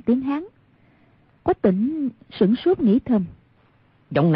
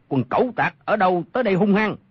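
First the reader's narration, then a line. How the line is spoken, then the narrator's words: Shout. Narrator (Vietnamese): Trong bóng tối có một người quát lên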